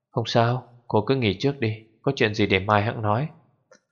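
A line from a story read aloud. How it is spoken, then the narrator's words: Hoarse, coughing. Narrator (Vietnamese): Dư Tô khàn khàn ho khan nói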